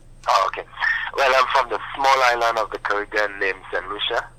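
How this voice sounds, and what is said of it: Voice weakened by a cold. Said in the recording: “I'm down in the cold, so my voice is not that great”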